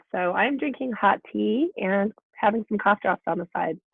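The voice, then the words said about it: Voice sounds sick with a cold. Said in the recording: “You might hear it in my voice. I'm getting over a cold.”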